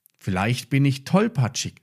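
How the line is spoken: Plain, after hesitation. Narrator (German): sagte er schließlich

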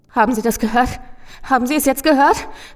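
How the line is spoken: Gasping lament. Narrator (German): keuchte der Mann und es klang wie ein Wehklagen

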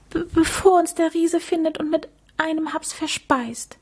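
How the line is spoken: Stammering. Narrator (German): stotterte er

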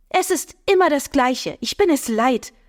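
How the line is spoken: Agitated woman, loud and clear. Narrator (German): eine erregte Frauenstimme laut und deutlich

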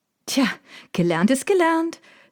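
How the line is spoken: Triumphant call. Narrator (German): rief ich triumphierend

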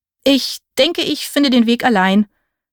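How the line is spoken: Stammering. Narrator (German): stammelte ich

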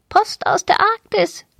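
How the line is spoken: Small parrot croaking. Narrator (German): krächzte der kleine Papagei

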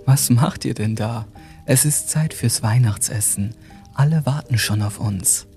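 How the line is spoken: Gentle voice. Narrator (German): sagte sie mit sanfter Stimme

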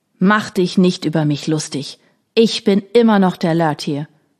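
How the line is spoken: Old man shouting. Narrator (German): schrie der alte Mann

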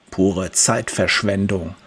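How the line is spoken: Muttering. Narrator (German): murmelt Michael

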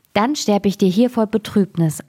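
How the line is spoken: Plain, little fawn. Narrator (German): antwortete das Rehchen

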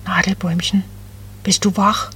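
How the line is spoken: Very soft cooing. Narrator (German): Ganz leise gurrte Becky

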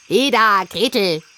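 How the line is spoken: Calling out. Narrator (German): rief sie dem Mädchen zu

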